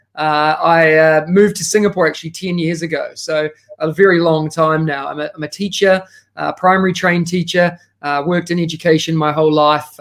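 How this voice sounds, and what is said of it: New Zealand accent. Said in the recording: “As you can tell by the accent, I am originally from New Zealand”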